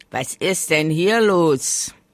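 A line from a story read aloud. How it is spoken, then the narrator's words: Sudden booming muffled voice. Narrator (German): polterte plötzlich eine Stimme im Laubhaufen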